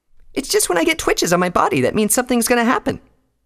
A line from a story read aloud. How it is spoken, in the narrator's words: Pinky replied cheerfully